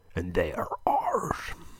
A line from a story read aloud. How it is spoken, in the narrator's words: muttered under his breath